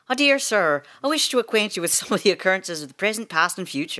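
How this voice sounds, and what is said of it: Put-on Irish accent. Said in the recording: “I don't know if I can do an Irish accent without it being too, like, you know”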